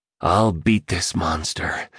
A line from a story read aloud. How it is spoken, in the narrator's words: he whispered to himself